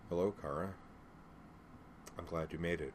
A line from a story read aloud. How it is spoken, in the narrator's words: He smiled and said quietly